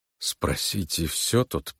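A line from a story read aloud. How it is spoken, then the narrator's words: Muttering. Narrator (Russian): пробормотал он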